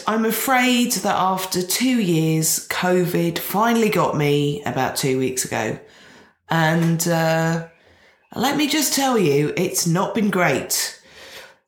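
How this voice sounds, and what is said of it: Nasal, congested voice. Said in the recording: “you sound a bit nasally ... Listener, you'd be right”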